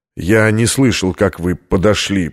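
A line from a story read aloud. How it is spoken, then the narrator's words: Muttering. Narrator (Russian): пробормотал американец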